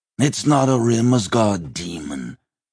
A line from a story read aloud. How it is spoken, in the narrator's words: Einskaudir growled